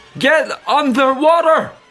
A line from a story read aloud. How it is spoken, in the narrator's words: I shouted, unheeded